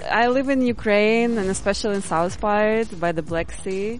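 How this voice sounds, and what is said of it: Foreign-accented English. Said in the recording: “Your accent”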